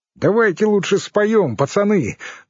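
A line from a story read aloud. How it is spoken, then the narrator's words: Cheerful suggestion. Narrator (Russian): бодро предложил Мигунов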